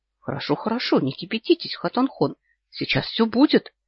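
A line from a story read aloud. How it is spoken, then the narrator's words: Quickly softening tone. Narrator (Russian): быстро меняет тон Ирнчин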